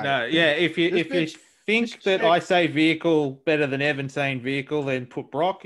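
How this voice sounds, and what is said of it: Grainy Australian accent. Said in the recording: “your grainy Australian accent”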